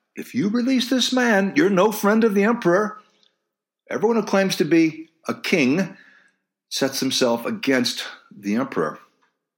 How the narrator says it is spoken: the Jews cried out

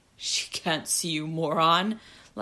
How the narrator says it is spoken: laughed Rutger

